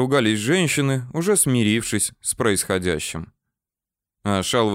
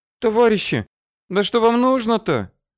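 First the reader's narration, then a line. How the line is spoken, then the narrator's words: Squeaky girlish, muffled. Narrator (Russian): пищали из-за двери девичьим голосом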